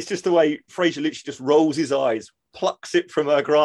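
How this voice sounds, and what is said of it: Usual voice. Nothing is said of it.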